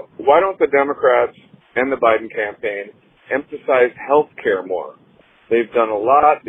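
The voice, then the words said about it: Minnesota accent. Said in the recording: “the Minnesota accent would then have people say, God, that guy sounds like he's from Minnesota”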